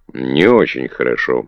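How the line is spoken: Gloomy. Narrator (Russian): мрачно ответил Питер

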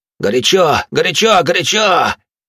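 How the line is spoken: Loud shouting. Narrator (Russian): начал громко кричать он

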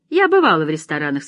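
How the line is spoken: Cheerful. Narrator (Russian): сказала Мелина весело

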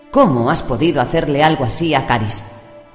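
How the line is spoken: Snapped retort. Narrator (Spanish): le espetó Alice

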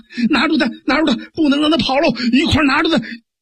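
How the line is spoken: Shouting. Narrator (Chinese): 上边人还喊呢

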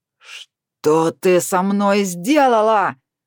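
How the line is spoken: Hare yelling. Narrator (Russian): одновременно заорал заяц

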